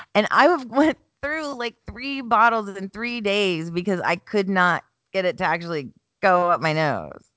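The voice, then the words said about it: Rough, congested voice. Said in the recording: “I do apologize if I sound a little rough ... the spray will work and the allergens, the allergy pills will work as well.”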